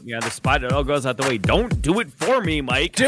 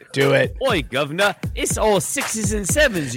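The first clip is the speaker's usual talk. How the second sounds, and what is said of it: Put-on British accent. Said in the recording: “That's kind of a British accent. If you read that comment, you'll be doing kind of a British accent ... I can do a British accent as good as anyone thinks they can”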